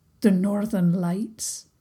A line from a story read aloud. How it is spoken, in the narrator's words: Prince Hamish murmured